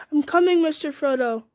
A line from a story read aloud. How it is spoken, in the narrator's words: His love for Frodo rose above all other thoughts, and forgetting his peril, he cried aloud